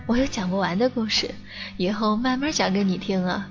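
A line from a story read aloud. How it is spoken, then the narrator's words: Smiling. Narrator (Chinese): 他笑着说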